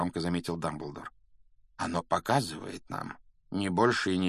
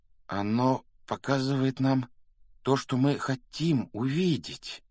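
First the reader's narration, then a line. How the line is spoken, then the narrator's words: Slow, deliberate. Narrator (Russian): медленно выговорил он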